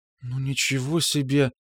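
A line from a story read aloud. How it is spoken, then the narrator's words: Muttering. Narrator (Russian): бормотала Гарина-младшая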